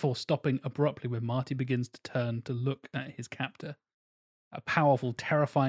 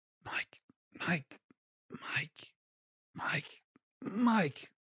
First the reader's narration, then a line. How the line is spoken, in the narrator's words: continues to whisper